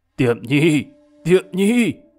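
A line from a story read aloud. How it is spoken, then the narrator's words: Hoarse throat-clearing, loud call. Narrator (Vietnamese): có tiếng hắng giọng khàn khàn, rồi có người gọi lớn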